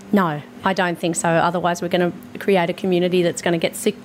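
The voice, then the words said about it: Hoarse, strained voice. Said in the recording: “my laryngitis I've got going on right now”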